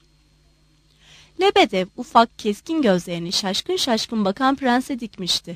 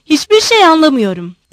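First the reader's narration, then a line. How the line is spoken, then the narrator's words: Shouting. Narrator (Turkish): diye bağırdı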